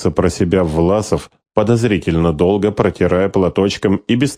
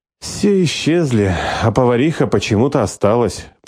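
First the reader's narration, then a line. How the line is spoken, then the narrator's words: Feigned sigh. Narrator (Russian): притворно вздохнула Хейди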